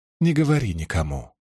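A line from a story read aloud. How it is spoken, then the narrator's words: Said softly. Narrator (Russian): мягко сказала Эгвейн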